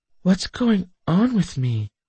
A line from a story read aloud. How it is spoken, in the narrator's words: I muttered, my words sounding drawn out and sluggish to my ears